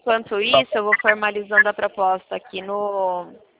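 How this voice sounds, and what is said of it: Voice sounding like a drag queen. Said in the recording (Portuguese): “tô com uma voz de drag”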